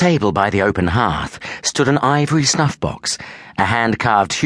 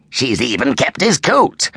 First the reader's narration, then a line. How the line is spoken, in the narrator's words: Ferret cackled